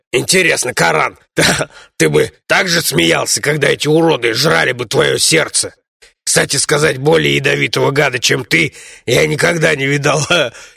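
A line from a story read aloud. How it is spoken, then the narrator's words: Giggling gnome. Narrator (Russian): хихикнул гном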